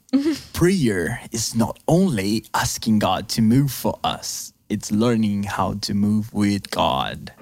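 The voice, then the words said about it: Dramatic prophetic preacher delivery. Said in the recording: “Now with the prophetic accent.”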